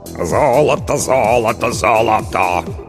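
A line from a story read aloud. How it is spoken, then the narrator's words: Hoarse bass singing. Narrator (Russian): хриплым басом пропел Толик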